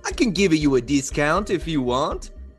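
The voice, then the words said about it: Odd put-on accent. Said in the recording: “that's an odd accent, but I like it”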